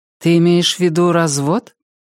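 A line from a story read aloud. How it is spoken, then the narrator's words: Calm with hidden panic. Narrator (Russian): Вопрос прозвучал вполне спокойно, но ему вдруг показалось, что он уловил в ее голосе панические нотки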